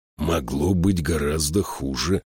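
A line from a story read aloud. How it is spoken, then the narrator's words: Whispered. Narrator (Russian): прошептал он принцу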